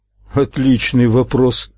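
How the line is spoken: Embarrassed chuckle. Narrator (Russian): Уайзер смущенно хохотнул

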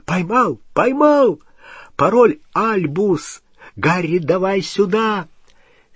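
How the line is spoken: Sudden excited shout. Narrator (Russian): И вдруг Рон взволнованно закричал

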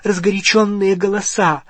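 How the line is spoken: Breathy exhale. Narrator (Russian): выдохнула миссис Уизли

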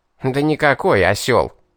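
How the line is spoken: Snorting demon. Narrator (Russian): Уведомил фыркнувший бес

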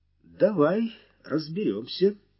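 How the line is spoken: Calm. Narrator (Russian): спокойно кивнул тот

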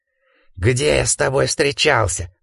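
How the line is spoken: Hoarse rasp. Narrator (Russian): прохрипел Гардинер

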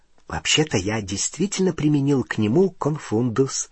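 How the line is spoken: Whispered. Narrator (Russian): шепотом сказал Рон Гарри

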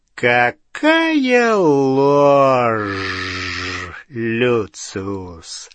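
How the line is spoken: Quiet hissing voice. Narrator (Russian): Шипение, послышавшееся в негромком голосе Волан-де-Морта

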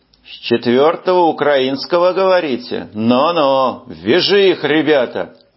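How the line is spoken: Drawl. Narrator (Russian): сержант протянул

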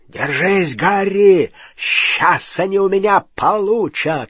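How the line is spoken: Growling. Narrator (Russian): рычал Хагрид

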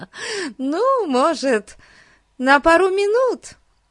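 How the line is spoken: Laughing. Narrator (Russian): рассмеялась кухарка

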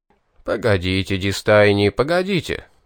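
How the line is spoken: Laughing. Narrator (Russian): рассмеялся Астарх

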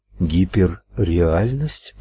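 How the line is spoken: Mutter. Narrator (Russian): пробормотала она

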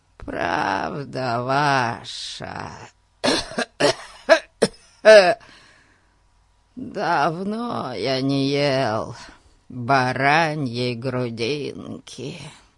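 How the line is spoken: Toothless mumble, coughing. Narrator (Russian): прошамкал бродяга, опять закашлявшись

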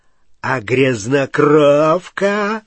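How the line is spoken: Growl. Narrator (Russian): прорычал Фенрир

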